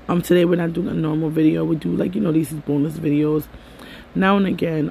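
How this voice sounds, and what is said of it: Strained, unwell-sounding voice. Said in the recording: “sorry about my voice... my voice is not acting the greatest right now”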